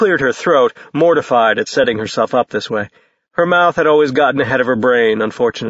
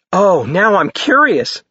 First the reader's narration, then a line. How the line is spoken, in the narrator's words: Mia exclaimed